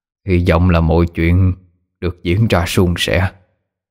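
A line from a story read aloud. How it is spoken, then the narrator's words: Distant muttering. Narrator (Vietnamese): Thầy lẩm bẩm nói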